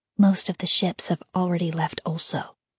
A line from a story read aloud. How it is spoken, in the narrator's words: Iria said under her breath